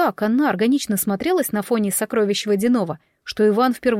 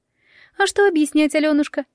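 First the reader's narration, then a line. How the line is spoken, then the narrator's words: Sad sigh. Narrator (Russian): печально вздохнув пернатая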